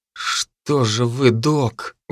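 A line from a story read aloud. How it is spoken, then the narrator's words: Breathed out. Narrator (Russian): выдохнул я Сильвер в лицо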